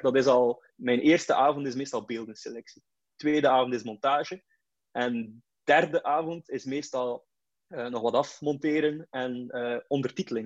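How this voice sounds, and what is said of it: West Flemish accent. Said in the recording (Dutch): “mijn West-Vlaams accent”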